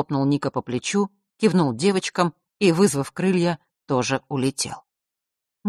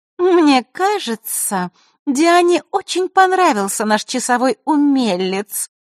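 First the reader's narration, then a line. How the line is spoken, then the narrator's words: Sweet voice. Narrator (Russian): сладким голосом произнесла она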